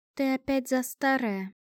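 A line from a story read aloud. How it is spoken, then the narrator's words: Sighing. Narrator (Russian): вздохнула Лавиния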